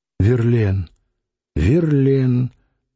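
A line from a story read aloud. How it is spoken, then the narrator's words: Woman's sigh. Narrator (Russian): дважды вздохнула Нехаева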